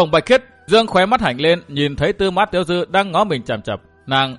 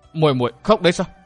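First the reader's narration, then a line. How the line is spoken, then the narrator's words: Trembling soft question. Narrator (Vietnamese): Tư Mã Tiểu Dư bị mấy hạt nước mắt làm cho tỉnh táo, chàng không nhịn được cất giọng run run khẽ hỏi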